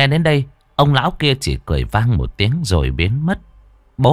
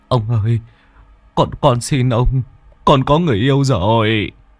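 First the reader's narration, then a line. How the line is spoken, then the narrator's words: Tearful whimper. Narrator (Vietnamese): bố mếu máo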